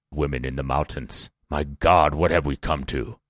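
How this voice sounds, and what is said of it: Put-on voice of a grumbling man. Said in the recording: “That's not British accent. That's just some guy.”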